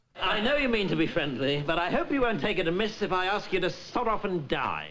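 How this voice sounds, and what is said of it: Put-on accent, well done. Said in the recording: “Best accent I've ever heard her put on.”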